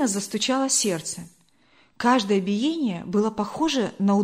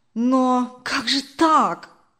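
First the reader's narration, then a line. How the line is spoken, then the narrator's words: Confused exclamation. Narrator (Russian): Сбитый с толку, воскликнул Даниил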